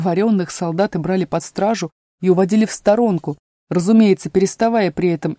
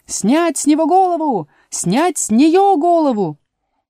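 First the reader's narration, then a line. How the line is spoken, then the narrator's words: Incessant quarrelsome shouting. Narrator (Russian): королева без умолку ссорилась с игроками и кричала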